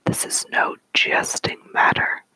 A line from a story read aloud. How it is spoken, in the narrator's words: she bellowed